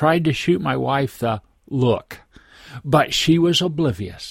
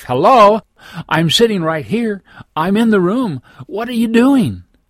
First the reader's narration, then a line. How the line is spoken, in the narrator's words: Everything inside me was screaming